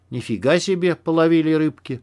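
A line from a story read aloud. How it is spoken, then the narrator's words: Breathless, spluttering. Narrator (Russian): выдохнул Макс, отплевываясь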